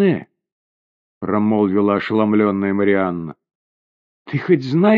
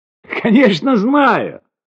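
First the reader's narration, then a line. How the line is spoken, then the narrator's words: Joyful shout. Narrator (Russian): радостно закричала госпожа Гамелен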